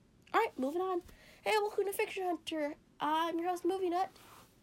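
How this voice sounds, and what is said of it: Congested, sick-sounding voice. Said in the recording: “I have a cold, so sorry if I sound like crap ... my voice still sounds like crap”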